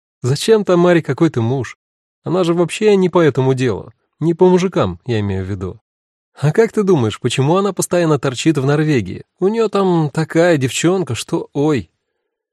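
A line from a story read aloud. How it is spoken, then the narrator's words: Forced cheerfulness, inner shock. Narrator (Russian): Эва почувствовала, как холодеют ее ноги, а в ушах пульсирует кровь, но нашла в себе силы бодро сказать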